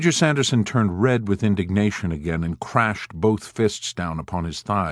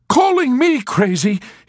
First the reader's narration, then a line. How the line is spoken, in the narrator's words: he shouted in a sputtering rage